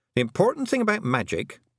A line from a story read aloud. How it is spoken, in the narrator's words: she added haughtily